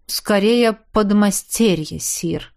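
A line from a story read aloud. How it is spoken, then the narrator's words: Calm confirmation. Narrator (Russian): спокойно подтвердил герцог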